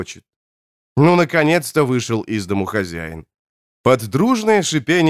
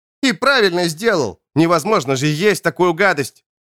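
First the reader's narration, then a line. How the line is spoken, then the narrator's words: Shouted retort. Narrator (Russian): выкрикнул он в ответ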